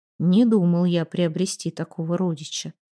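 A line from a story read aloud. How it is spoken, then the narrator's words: Muttering. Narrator (Russian): пробормотал Фреймар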